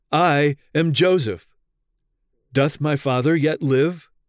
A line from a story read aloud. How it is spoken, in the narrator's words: weeping aloud, he cried